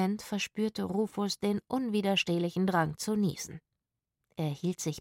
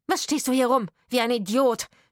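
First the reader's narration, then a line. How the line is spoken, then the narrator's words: Woman shouting. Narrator (German): schrie die Frau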